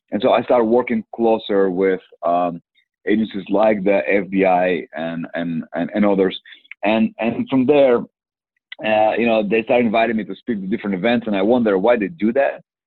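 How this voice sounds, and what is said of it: Heavy non-native English accent. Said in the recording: “a guy with a bad accent, can hardly speak English ... put some subtitles from time to time”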